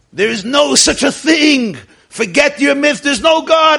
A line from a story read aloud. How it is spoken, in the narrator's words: angrily he would scream